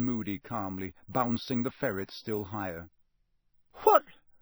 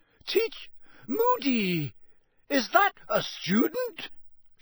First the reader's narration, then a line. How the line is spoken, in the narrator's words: shrieked Professor McGonagall